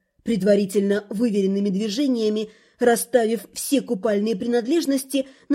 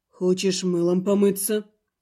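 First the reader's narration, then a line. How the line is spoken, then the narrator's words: Calm. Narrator (Russian): спокойно уточнил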